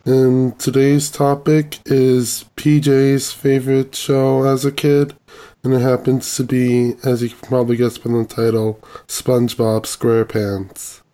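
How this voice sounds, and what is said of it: Voice sounds different, sick. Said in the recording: “my voice sounds different, it's because I'm getting over a cold”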